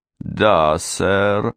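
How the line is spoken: Slow. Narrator (Russian): медленно произнес он

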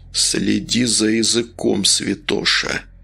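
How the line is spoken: Quiet. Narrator (Russian): тихо проговорил Волк

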